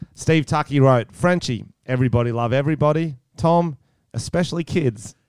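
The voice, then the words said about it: Put-on Australian accent. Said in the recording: “I'm going to start off with Australian accent.”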